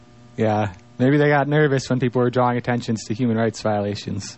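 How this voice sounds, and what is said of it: Usual voice. Nothing is said of it.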